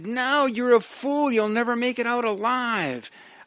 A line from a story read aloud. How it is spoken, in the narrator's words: Tom shouted